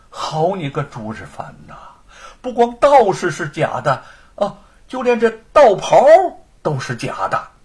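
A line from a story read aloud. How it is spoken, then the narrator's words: Wry, exasperated. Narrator (Chinese): 有些哭笑不得的说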